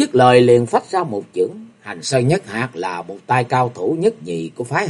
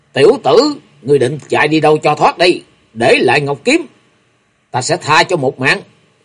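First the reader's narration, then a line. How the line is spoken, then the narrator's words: Loud shout. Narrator (Vietnamese): quát to lên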